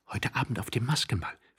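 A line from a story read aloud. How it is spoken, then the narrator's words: Quick whisper. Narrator (German): flüsterte sie schnell Tworogow zu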